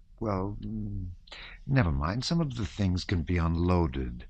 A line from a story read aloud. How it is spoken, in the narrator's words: he added in a soft, confidential voice, as though afraid of being overheard